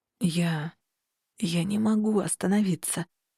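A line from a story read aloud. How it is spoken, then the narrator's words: Hoarse moan. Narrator (Russian): простонал Хартат хрипло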